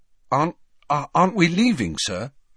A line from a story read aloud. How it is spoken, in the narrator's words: Harry asked anxiously